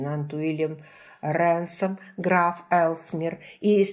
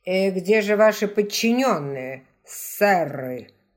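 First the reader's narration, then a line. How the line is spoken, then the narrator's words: Growled. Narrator (Russian): прорычал Каттер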